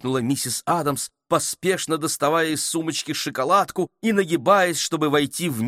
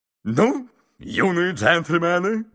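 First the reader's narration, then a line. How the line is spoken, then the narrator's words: Brisk cheerful. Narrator (Russian): бодро сказал мистер Адамс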